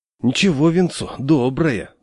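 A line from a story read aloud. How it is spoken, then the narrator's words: Sighing. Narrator (Russian): вздохнул дядя Саша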